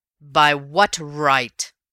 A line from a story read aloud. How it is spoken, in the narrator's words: roared Raffles in a ringing voice